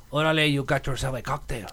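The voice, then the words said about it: Put-on Mexican accent. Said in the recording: “you have to start your Mexican accent ... with orale”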